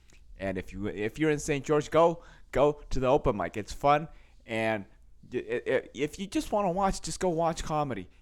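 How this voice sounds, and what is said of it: Slightly hoarse voice. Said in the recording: “my voice is a little hoarse as well, too, because there's a lot of voice yelling”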